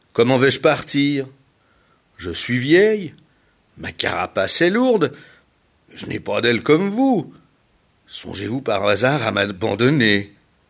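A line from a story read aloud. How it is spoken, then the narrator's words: Indignant exclamation. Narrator (French): s'exclama Piwan indigné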